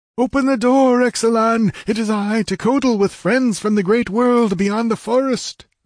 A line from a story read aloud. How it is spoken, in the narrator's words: He lifted his voice and called